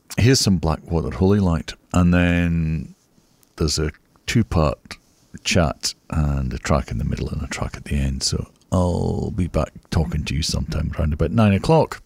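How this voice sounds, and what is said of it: Slightly hoarse voice. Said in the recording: “my voice is a little bit different ... A little bit hoarse from singing and shouting and carrying on Sunday.”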